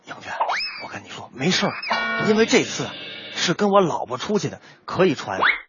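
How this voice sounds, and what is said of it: Quiet, hushed voice. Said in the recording (Chinese): “小声跟我说”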